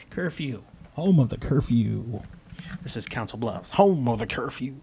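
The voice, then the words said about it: Radio DJ announcer voice. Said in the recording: “That's my radio DJ voice.”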